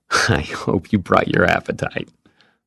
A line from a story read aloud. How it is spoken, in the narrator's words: the man laughed